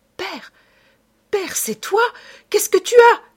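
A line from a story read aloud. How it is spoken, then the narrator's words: Panicked cry. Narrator (French): s'écria-t-elle affolée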